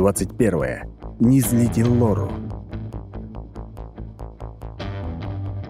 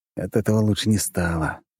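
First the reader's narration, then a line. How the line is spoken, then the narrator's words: Sighing. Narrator (Russian): вздохнув, сказал я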